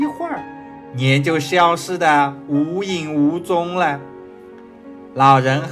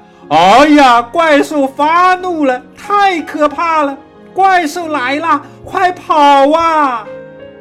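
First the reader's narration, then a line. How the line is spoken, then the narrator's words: Shouting while running. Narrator (Chinese): 边跑边喊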